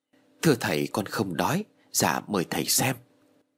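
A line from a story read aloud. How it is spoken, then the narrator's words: Soft reply. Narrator (Vietnamese): Duy liền khẽ đáp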